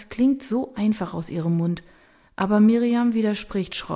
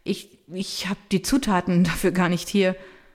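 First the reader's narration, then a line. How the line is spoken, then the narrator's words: Stammering. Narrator (German): Miriam sagt stotternd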